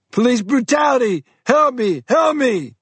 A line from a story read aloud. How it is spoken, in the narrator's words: Tite screamed